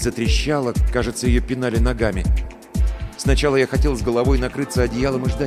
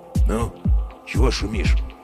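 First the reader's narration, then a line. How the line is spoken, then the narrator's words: Quiet question. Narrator (Russian): спросил он тихо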